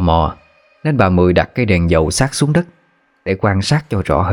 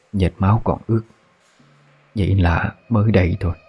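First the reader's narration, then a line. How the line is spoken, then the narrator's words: Old woman whispering. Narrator (Vietnamese): Bà thì thầm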